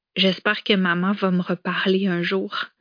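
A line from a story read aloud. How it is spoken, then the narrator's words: Girl murmuring. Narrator (French): avait-elle murmuré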